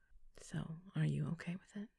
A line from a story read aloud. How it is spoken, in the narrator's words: He asked, his voice low and soft